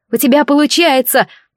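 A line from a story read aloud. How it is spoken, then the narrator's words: Shouting over a storm. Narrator (Russian): закричала я, прорываясь сквозь рев бури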